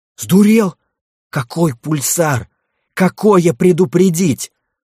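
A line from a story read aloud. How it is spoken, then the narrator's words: Hissed. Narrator (Russian): зашипел на него Айрунг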